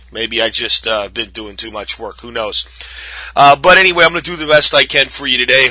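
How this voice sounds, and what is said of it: Hoarse voice cutting in and out. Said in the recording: “I've got some hoarseness in my voice going on again... my voice is cutting in and out on me... my bad voice”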